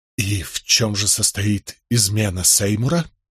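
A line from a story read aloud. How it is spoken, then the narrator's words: Strained, forced words. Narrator (Russian): выдавил я из себя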